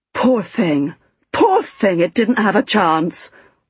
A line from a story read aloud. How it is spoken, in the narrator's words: wailed the fat woman